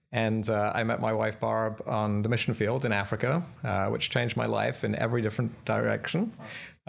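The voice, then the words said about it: British accent. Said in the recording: “You can probably tell by my accent, I'm not from Southern California. I'm from Britain.”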